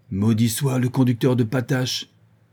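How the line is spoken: Huntsmen shouting angrily. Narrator (French): s'écrient les piqueurs

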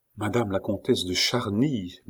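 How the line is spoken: Murmured. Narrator (French): murmura-t-il

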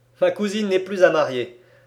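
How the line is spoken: Laughing reply. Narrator (French): répondit en riant Alcide Jolivet

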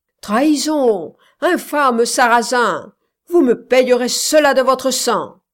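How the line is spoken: Shouting, natural voice. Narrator (French): criait Don Candeloro de sa voix naturelle

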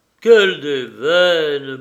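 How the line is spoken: Grumbling. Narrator (French): bougonna Gorgeret

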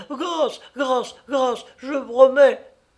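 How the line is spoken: Child screaming. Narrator (French): L'enfant maintenant hurlait

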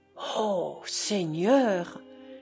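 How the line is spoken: Flushed, sweaty sighing. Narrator (French): soupirait Petrovna, toute rouge et moite

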